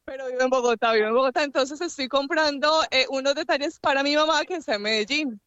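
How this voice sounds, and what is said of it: Medellín paisa Colombian Spanish accent. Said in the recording (Spanish): “pareciera que el acento la delatara”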